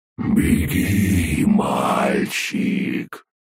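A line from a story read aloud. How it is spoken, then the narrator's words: Monster's hiss. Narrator (Russian): прошипело чудовище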